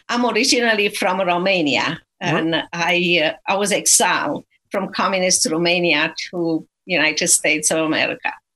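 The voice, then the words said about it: Romanian-accented English. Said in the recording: “by my accent, you know that I was not born in Texas. I do not have a Texan accent.”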